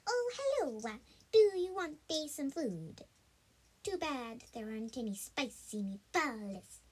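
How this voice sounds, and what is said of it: Funny put-on character accent. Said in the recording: “funny accent. ... a new accent”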